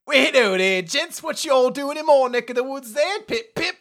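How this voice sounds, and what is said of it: Bad put-on British accent. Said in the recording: “Can I also then speak with a bad British accent? ... We need that voice.”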